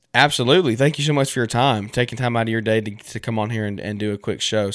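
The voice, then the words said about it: Hoarse, fading voice. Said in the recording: “I'm losing my voice. My goodness, this sinus thing's killing me.”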